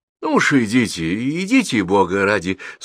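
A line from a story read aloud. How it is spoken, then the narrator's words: Sleepy mumble, father. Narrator (Russian): сонным голосом пробормотал отец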